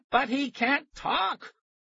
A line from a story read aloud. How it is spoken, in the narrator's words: Tara screamed